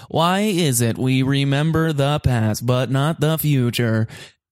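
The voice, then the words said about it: Imitates another person's voice. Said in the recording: “I'm going to do a Stephen Hawking impression ... I've done it since I was in seventh grade”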